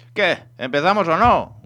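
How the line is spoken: Shouting. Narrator (Spanish): gritaba

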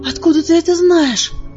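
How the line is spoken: Breathless exhale. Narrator (Russian): выдохнула я

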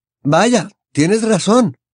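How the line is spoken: Man exclaiming. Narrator (Spanish): exclamó el hombre

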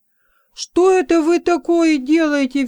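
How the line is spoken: Furious shout. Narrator (Russian): в ярости закричал Робинтон

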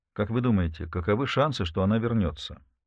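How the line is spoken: Direct, even voice. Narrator (Russian): Вопрос был задан прямо, ровным голосом

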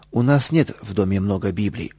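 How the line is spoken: Calm mother. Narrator (Russian): спокойно ответила мама

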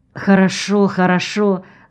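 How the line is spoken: Embarrassed mumbling. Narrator (Russian): смущенно забормотал

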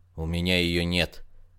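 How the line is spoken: Dull, muffled. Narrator (Russian): также глухо ответствовал доктор

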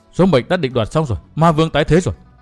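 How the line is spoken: Shuddering woman muttering aloud. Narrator (Vietnamese): Khổng Nhất Tuyền thì dùng mình mấy lượt, sau đó nàng nhắm tịt mắt lại và lẩm bẩm lên thành tiếng

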